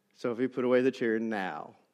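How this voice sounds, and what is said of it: Stern escalating dad voice. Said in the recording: “I escalated, you know, dad voice”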